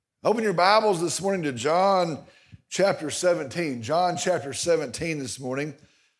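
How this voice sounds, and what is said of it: Strained, worn-out voice. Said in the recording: “I'm hoping my voice is going to hold out this morning... 4 hours of yelling at the Argyle Eagles did”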